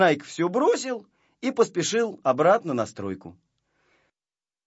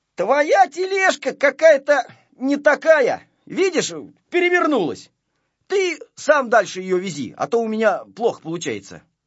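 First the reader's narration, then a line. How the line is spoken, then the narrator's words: Shouting. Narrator (Russian): крикнул ему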